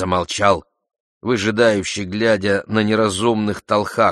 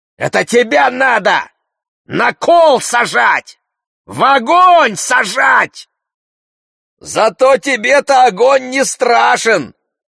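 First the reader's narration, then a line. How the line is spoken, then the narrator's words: Angry shout. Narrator (Russian): злобно прокричал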